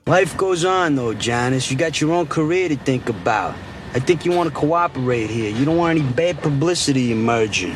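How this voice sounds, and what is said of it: Over-the-top put-on Italian accent. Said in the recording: “Let's continue on about Italian accents ... this accent. So I guess what I'm asking is, if anyone's of Italian descent, they hear this accent. Is it as bad as I think it is? ... It's comical ... so over the top”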